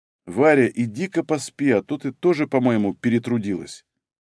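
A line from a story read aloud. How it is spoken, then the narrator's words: Quiet, hesitant. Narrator (Russian): осекся, тихо сказал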